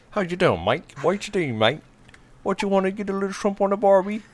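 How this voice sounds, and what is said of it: Put-on Australian accent. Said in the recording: “Accents are not really his forte. ... Do your Australian accent”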